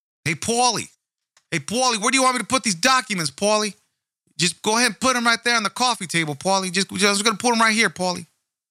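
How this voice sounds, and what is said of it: Bad put-on East Coast accent. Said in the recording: “this horrible accent attempt at someone from the East Coast”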